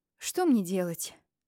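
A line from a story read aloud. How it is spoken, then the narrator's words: Sighing. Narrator (Russian): вздохнула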